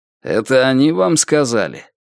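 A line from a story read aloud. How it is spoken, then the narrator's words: Contemptuous snort. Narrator (Russian): Альберт презрительно фыркнул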